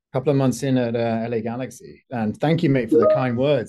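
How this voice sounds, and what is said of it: Foreign accent. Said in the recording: “my bullshit accent ... I didn't say the accent was bullshit. I just think it gives a little extra”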